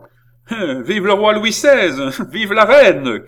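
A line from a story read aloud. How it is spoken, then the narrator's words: Young man, shrill, insulting tone. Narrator (French): cria le jeune homme d'une voix stridente, comme s'il insultait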